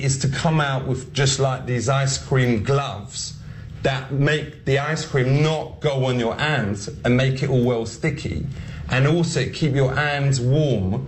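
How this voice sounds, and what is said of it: Comedic put-on character accent. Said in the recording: “trying to just do this accent ... the character is not meant to mock Black men, it's meant to mock white men who are trying to be Black”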